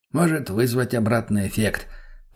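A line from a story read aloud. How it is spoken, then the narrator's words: Muttered. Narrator (Russian): пробормотал Масленников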